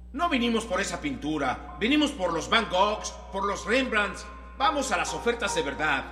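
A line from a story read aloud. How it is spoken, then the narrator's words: Angry man shouting. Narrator (Spanish): Otra vez el hombre gritó con enojo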